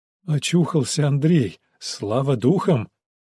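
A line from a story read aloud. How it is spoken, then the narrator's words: Breathed out. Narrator (Russian): выдохнул он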